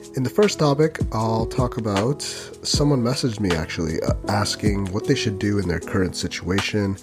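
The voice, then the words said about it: Voice sounds unwell, slightly off. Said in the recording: “Plus, I had COVID this past week. You might be able to tell in my voice”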